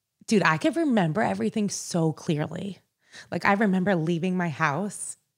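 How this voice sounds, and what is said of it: Teary, emotional voice. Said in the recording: “I'm like getting teary-eyed. ... You are getting teary-eyed.”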